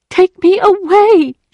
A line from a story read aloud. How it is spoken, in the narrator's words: cried